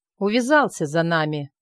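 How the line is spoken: Reluctant muttering. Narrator (Russian): неохотно пробурчал Мопс

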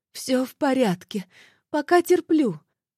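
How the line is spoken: Hoarse, in pain. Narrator (Russian): Стараясь не кривиться от боли, просипела Морозу Марфа

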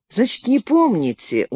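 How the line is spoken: Glum. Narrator (Russian): уныло сказал он

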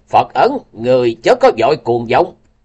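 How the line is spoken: Uncontrolled old woman shout. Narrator (Vietnamese): Tuyết Sơn Bà vẫn không thể kềm chế được, quát lên một tiếng nói

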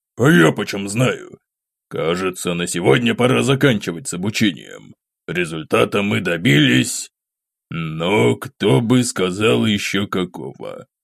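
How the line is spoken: Muttering. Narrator (Russian): Пробормотал предок

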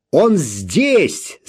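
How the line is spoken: Shouting. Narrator (Russian): закричал кто-то из полицейских

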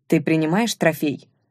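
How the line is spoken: Plain. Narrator (Russian): спросил Чингар

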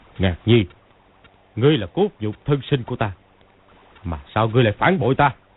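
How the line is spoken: Cold. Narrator (Vietnamese): Công Tôn cốc chủ lạnh lùng nói

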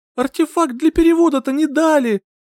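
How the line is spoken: Near-tearful moan. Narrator (Russian): Чуть не плача, простонала в пустоту

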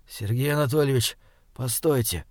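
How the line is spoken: Quiet. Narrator (Russian): тихо проговорил Александр Михайлович

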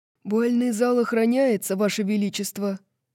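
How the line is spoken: Hoarse. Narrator (Russian): Хриплым голосом произносит стражник

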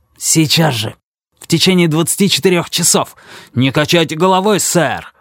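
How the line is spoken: Angry shout. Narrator (Russian): зло выкрикнул Пикеринг

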